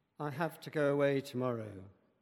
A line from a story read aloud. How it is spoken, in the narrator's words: Jesus sighed